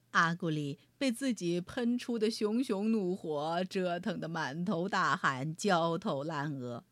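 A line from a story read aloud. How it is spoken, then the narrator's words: Laughing. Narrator (Chinese): 蚊子波泰一边哈哈笑着，一边说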